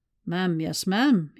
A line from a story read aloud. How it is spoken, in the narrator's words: murmured